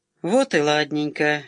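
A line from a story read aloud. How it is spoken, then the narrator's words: Cheerful grunt. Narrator (Russian): весело крякнул в темноте Садиков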